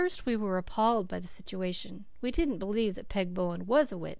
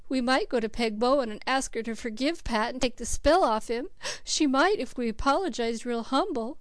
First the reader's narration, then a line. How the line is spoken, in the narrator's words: sobbed Cecily